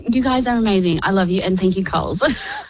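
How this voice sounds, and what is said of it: Teary, emotional voice. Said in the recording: “I'm a bit teary now. I didn't think I'd be like that.”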